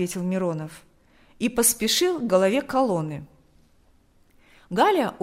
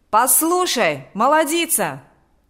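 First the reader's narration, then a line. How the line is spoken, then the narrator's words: Shouting. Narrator (Russian): закричал Миронов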